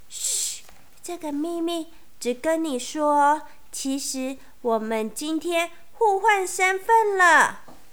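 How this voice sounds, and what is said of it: Quiet, hushed speaking voice. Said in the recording (Chinese): “小声”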